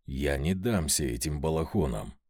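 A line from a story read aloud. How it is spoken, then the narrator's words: Growling inwardly, getting angry. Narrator (Russian): прорычал я про себя, снова заводясь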